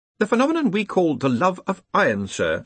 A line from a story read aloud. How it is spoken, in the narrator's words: said Ponder smoothly